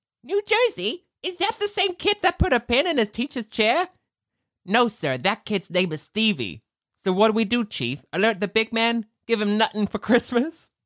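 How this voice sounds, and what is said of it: New Jersey accent. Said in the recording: “Why do they have, like, a New Jersey accent? It's so weird.”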